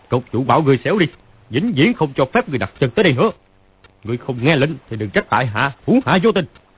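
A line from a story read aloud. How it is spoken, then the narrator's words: Loud shout. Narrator (Vietnamese): Phàn Nhất Ông quát to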